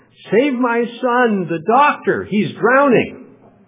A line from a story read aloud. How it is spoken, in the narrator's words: she goes screaming into the hotel looking for help, shouting really loudly